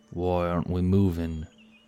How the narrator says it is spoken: He muttered

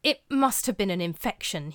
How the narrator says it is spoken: he muttered to his colleagues, still trying to convince himself

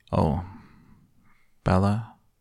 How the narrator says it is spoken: he called after me, his voice more even

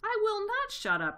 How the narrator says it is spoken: shrieked Rat

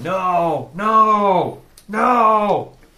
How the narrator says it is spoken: he starts yelling

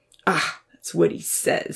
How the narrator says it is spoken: he scoffed

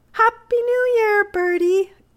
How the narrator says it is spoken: cried Amy

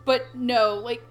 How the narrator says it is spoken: Ko yells a ton

